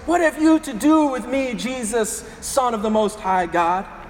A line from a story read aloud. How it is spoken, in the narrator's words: He shrieked at the top of his voice